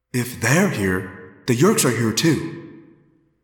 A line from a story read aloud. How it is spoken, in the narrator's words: Rachel said grimly